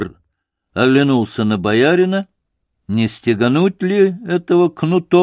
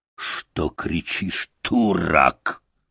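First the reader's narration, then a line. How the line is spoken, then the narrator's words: Drunken foreign growl. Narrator (Russian): пропитое нерусское лицо с черными усами зарычало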